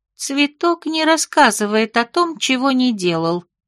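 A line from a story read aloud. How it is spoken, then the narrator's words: Calm tree-being explaining. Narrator (Russian): спокойно пояснил древень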